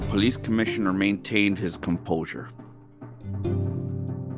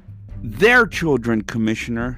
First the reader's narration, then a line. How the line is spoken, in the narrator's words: yelled the citizen